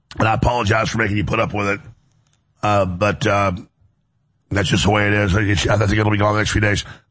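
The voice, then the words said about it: Hoarse, raspy voice. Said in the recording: “As you can hear, my laryngitis is still here. I've never had laryngitis as bad, but it's about half gone.”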